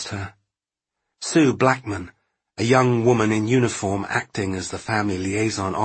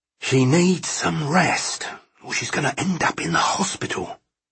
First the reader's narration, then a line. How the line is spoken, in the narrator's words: hissed